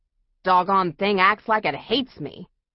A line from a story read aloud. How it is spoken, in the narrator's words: Rush complain bitterly